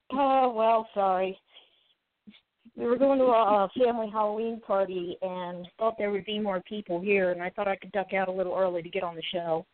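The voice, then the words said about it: Slightly congested, stuffy-nosed voice. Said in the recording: “my voice sounds a little weird. I have a slightly stuffy nose.”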